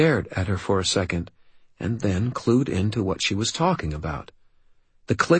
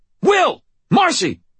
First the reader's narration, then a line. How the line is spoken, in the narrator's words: I shouted, unable to keep the snarl out of my voice